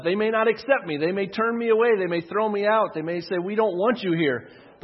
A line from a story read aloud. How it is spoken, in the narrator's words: he said